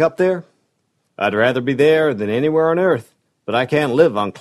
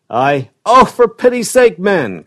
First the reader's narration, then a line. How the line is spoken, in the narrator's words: cried Marshall, with almost a sob in his voice